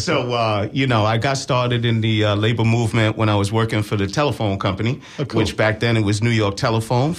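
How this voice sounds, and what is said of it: New York accent. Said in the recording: “I'm originally from New York ... We couldn't tell ... his accent wasn't there at any point”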